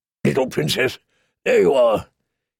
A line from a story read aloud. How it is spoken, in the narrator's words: he said in his gruff, kind voice